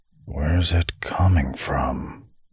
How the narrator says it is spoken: Ven muttered

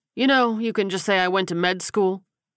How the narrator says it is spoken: he said dryly

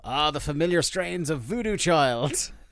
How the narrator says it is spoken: you can hear him yell

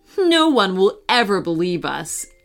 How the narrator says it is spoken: Emily said with a laugh

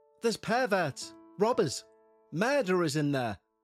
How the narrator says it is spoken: mum gasped

